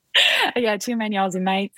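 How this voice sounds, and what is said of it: Australian accent. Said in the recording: “you've got an Australian accent and everything... You sound like you've been here forever.”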